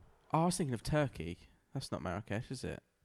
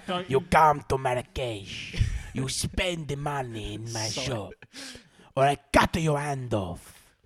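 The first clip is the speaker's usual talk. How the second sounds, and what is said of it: Put-on Turkish accent. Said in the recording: “I was doing a Turkish accent.”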